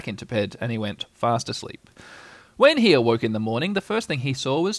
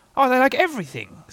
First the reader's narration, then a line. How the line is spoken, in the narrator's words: said Tigger cheerfully